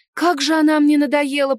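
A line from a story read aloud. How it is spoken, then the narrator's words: Moaning. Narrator (Russian): простонала я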